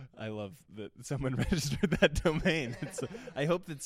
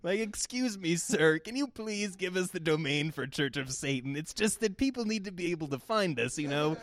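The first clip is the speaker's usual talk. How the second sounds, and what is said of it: Whiny put-on character voice. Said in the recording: “whiny Satanist accent”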